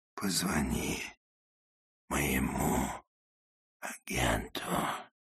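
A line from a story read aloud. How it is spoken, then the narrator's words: Whisper in ear. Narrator (Russian): прошептал Макс на ухо Джуди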